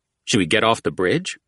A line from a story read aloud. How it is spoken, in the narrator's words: Culprit asked